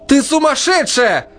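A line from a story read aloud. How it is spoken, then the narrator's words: Shouting. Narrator (Russian): прокричала Настя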